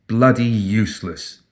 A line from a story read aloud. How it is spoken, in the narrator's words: Hoffman murmured under his breath